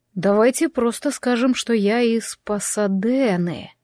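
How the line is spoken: Drawn-out last word. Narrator (Russian): он протянул последнее слово

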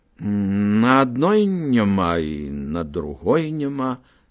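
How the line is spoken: Plain. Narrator (Belarusian): сказаў Алесь

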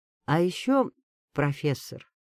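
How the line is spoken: Even, level tone. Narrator (Russian): продолжил Иван тем же ровным тоном

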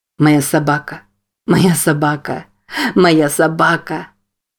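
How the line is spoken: Laughing and crying. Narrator (Russian): Смеясь и плача, повторял Джейк

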